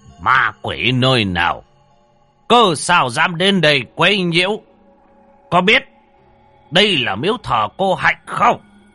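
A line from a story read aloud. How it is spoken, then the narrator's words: Loud, domineering shout. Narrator (Vietnamese): lão thống dương oai mà quát to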